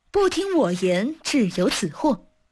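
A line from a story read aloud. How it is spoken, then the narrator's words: Gleeful laughing. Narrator (Chinese): 前番的说客又复到来，嘻嘻大笑道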